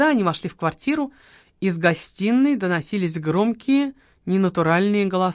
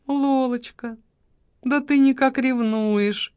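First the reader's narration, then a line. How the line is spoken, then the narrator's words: Honeyed voice. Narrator (Russian): медовым голосом проговорил маркиз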